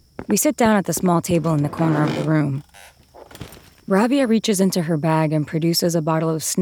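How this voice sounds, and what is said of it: Usual voice. Nothing is said of it.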